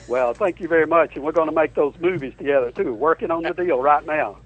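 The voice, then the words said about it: American accent, sounds like New Jersey. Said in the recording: “Listen to that accent... Your accent's great. You sound like you're from New Jersey.”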